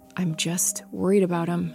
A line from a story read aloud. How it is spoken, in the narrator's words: said quietly